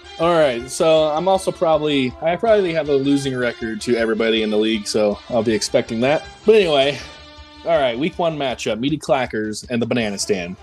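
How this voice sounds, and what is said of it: Voice affected by a cold. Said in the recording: “I am getting over a little cold here... My voice is a little kerny.”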